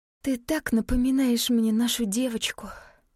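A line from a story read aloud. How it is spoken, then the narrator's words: Sighing. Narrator (Russian): вздохнула она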